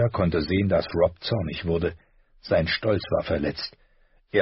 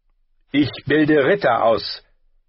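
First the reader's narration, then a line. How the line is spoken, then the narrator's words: Sharp. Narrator (German): sagte Sir Roderick scharf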